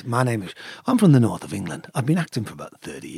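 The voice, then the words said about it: Sean Bean impression, northern English accent. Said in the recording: “Is that him? ... Yeah, Sean Bean. ... Because you knew the accent.”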